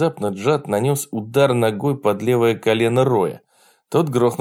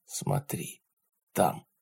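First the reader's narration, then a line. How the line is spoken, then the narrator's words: Whisper. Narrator (Russian): прошептал Джад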